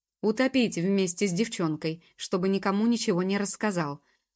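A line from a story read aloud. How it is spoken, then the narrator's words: Angry goblin bark. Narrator (Russian): гаркнул гоблин, сердясь от того, что приходится тратить время на повторение очевидных истин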